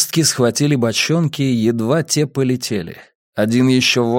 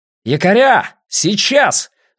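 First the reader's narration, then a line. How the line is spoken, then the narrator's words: Yelling. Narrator (Russian): заорал Атлейф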